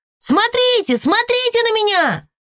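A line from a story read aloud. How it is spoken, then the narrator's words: Shouted. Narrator (Russian): крикнула я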